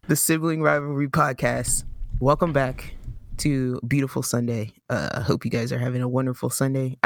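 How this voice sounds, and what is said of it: Quiet late-night radio DJ voice. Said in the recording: “this quiet uh, midnight radio DJ voice.”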